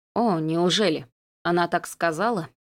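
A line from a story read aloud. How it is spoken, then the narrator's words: Strained, astonished. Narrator (Russian): С трудом выдавил, поражаясь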